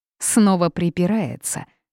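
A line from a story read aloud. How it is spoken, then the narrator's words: Cold snort. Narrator (Russian): холодно фыркнула Лин Фэй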